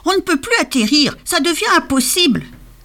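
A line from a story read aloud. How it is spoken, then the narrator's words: Exclaimed. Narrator (French): s'exclama Scrogneugneux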